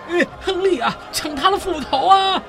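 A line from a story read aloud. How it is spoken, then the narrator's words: Raised voice, shouting. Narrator (Chinese): 古特上校提高了嗓子大叫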